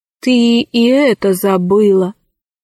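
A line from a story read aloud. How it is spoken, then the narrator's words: Sad remark. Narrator (Russian): печально заметил Арсеки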